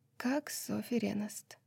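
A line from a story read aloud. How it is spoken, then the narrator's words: Quiet repetition. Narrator (Russian): тихо повторила Лидия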